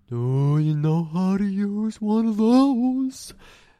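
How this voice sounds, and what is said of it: Cartoon bear character voice. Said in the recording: “doing a Yogi Bear impression?”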